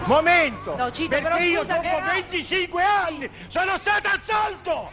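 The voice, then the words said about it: Shouting angrily. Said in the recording (Italian): “non urlare.”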